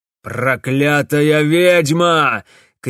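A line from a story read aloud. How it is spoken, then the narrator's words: Shouted. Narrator (Russian): крикнул барон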